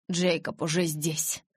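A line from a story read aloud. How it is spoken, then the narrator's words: Forced out with effort. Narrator (Russian): через силу выдавил Эдвард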